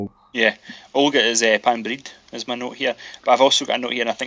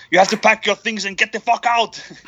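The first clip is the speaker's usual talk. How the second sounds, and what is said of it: Austrian-accented movie star impression. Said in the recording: “I think it's in an accent ... I don't know why I'm so Arnold Schwarzenegger here”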